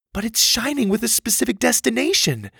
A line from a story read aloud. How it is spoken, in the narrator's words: Susie pleaded